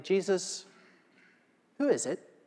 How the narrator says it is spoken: said quietly

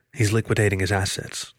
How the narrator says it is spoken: the otter said quietly

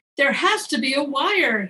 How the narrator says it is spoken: he exclaims

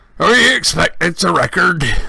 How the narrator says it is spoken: he said thickly

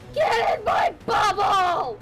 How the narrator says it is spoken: I'm gonna yell

